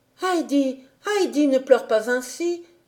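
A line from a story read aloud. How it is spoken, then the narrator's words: Pleading tone. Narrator (French): disait-elle d'un ton suppliant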